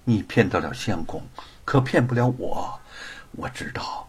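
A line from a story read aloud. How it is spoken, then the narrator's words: Soft sigh. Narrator (Chinese): 玉凤轻声叹息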